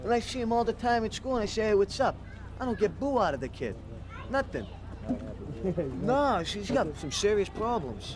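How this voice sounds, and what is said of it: Boston accent, partly New York-sounding. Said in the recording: “That accent. ... parts of it sound more like New York-y ... the Boston accent”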